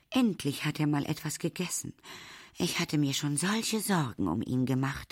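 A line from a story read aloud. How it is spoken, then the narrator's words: Sighing. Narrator (German): seufzt Supermum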